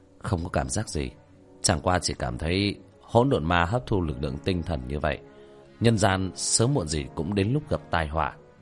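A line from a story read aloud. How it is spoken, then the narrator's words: Light smile. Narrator (Vietnamese): Tiểu thất khẽ mỉm cười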